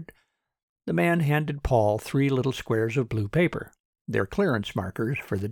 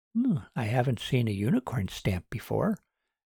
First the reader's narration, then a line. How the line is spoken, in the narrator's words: she muttered to herself